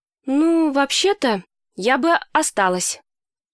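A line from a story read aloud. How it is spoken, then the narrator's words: Hesitant, faltering. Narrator (Russian): запинаясь, произносит Эми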